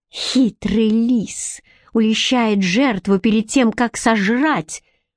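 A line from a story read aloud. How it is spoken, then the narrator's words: Hissing through clenched teeth. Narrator (Russian): прошипела Бренна сквозь стиснутые зубы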